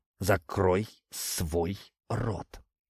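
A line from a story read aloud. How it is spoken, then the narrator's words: Hiss through clenched teeth. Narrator (Russian): прошипел я, стиснув зубы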